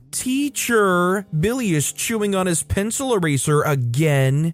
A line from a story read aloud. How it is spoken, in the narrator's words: that kid in kindergarten that would yell